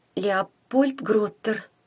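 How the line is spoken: Trembling voice. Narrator (Russian): дрогнувшим голосом прочитала Таня

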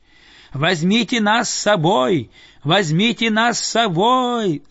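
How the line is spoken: Group yelling. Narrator (Russian): завопили они

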